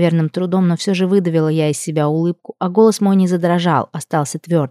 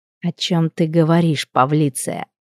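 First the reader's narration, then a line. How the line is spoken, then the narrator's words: Displeased, through gritted teeth. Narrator (Russian): Процедил явно недовольный услышанный мастер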